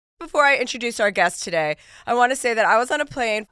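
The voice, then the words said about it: Sick, under-the-weather voice. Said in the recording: “you were a little under the weather. So, just so people know, that's why your voice sounds a little different.”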